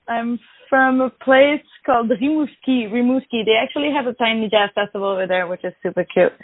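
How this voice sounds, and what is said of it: Slight French Canadian accent. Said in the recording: “I'm French Canadian. Maybe you can hear a little bit of an accent.”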